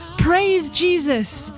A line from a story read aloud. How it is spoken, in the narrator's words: Someone in the crowd shouts